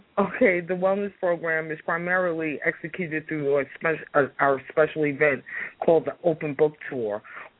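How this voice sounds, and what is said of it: Congested voice from a cold. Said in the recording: “I have a bit of a cold.”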